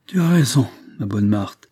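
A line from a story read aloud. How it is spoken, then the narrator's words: Deep sigh. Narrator (French): répondit Anne d'Arcona en poussant un profond soupir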